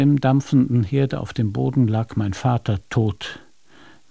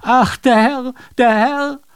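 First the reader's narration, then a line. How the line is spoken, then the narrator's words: Maid's scream. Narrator (German): Das Dienstmädchen schrie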